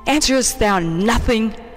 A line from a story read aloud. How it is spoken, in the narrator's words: he exclaimed